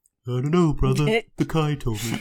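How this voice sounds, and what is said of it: Imitates the character Rom's voice. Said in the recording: “why are you doing your ROM voice? ... you did that too well.”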